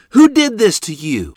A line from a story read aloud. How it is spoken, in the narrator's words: she exclaimed